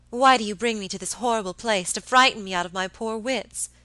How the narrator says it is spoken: cried my lady peevishly

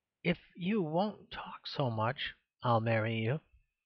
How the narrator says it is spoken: said Miss Hunt in a very soft voice

